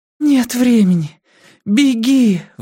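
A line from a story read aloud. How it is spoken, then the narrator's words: Desperate plea. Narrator (Russian): взмолилась Бакстер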